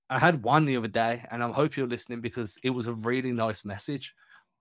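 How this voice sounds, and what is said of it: Accent pronouncing TH as F. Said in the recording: “you're not pronouncing the TH when you say three. Like, so it sounds like you're saying set him free rather than number three ... that's my accent. I can't escape it ... it's the accent.”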